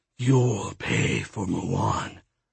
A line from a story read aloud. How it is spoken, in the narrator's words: he hissed